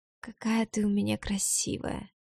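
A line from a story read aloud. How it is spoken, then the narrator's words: Whisper in the ear. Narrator (Russian): шепот на ухо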